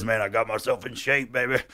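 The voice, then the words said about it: Imitates another person's voice. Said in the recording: “Pretty good impersonation”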